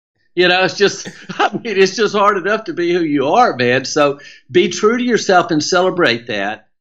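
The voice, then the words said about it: Southern American accent. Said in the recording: “you got that Southern twang ... I speak Southernese”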